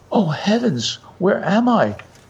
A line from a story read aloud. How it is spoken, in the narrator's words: exclaimed